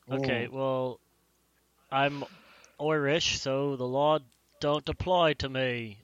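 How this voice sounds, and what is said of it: Put-on Irish accent. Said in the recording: “I'm really bad at that accent. ... That was right on, I think.”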